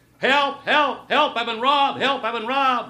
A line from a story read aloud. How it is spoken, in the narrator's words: suddenly he'd start to yell